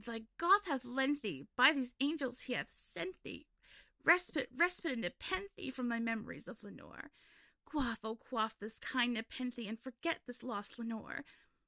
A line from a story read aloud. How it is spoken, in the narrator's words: I cried